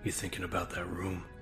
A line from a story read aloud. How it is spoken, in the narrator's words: John asked softly